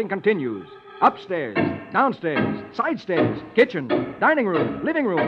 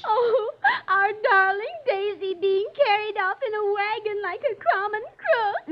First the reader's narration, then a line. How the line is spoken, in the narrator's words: sobs